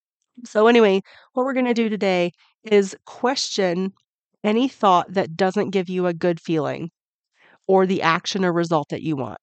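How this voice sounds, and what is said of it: Raspy voice from a cold. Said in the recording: “struggling through a little cold ... my raspy voice”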